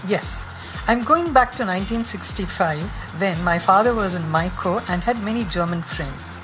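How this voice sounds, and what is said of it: Strong Indian accent. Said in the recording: “in a very Indian accent”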